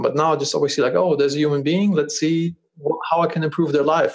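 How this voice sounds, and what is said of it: German accent. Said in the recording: “Do they think I have a weird German accent?”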